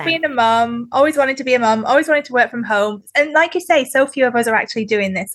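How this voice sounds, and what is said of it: Northern English accent. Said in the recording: “From the UK, as you can probably tell from my accent ... where I'm from in the UK is Northern England”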